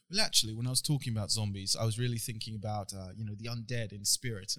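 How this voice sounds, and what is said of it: Good put-on English accent. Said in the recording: “You do a good accent.”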